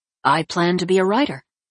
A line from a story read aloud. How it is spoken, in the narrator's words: Jack replied